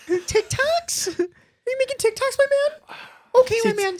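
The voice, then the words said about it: Imitates another person's voice. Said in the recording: “my Gary Vee impression”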